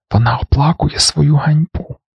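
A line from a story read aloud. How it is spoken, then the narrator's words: Triumphant whisper. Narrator (Ukrainian): беззвучно, але переможно засміялася і прошепотіла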